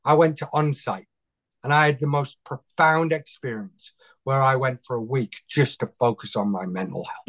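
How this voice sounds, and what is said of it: British-sounding accent. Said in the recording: “it's my accent, isn't it? It's what you guys would have sounded like if you didn't chuck us out of the country”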